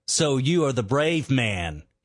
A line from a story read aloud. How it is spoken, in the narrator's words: he sneered